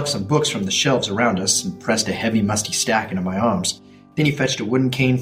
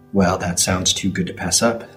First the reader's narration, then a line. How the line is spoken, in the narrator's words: said Rabbi Abramson